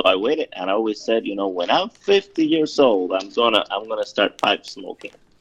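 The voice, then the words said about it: Latin American accent. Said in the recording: “based on your accent, I'm assuming you're of Latin American heritage.”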